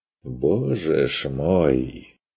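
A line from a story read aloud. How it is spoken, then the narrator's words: Mock-weary sigh. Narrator (Russian): вздохнул Курт с показным утомлением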